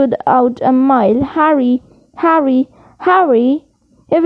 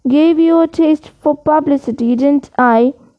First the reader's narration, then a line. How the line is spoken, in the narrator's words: said Lockhart